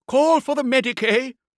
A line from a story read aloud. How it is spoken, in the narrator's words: shouted the Templar's prior